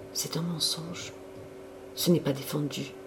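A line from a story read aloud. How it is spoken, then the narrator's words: Murmuring. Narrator (French): murmura-t-elle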